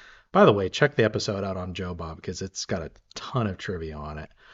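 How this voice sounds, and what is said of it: Usual voice. Nothing is said of it.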